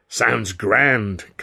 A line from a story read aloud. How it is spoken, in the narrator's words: Considine cried, chuckling away